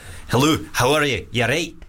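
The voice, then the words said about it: Attempted Scottish accent. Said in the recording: “Scottish.”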